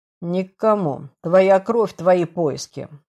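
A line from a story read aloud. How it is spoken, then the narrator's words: Cold. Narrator (Russian): холодно произнес Лей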